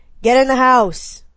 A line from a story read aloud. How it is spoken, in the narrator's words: Rafer bellowed